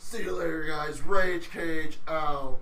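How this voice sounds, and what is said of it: Nicolas Cage impression. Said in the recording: “Nick Cage impersonation”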